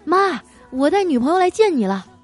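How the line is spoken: Excited call. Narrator (Chinese): 当时他特别兴奋，一进门就喊

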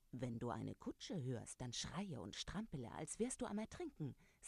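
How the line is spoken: Plain. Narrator (German): sagte er

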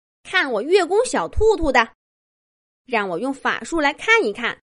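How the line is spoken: Loud. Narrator (Chinese): 月宫小兔兔……大声说道

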